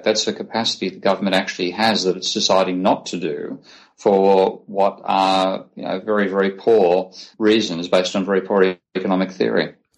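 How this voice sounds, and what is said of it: Australian accent. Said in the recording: “you're Australian. We can mm-hmm. tell from your accent.”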